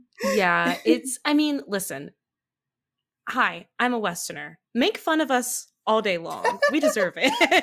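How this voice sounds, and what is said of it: American accent. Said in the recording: “I'm specifically an American too, if you can't tell from the accent.”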